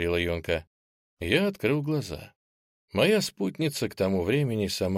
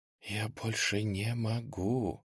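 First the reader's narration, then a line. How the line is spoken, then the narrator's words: Tearful drawn-out whisper. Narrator (Russian): шепотом сквозь плач протянула она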